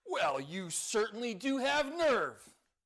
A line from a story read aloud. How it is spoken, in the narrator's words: exclaimed his friend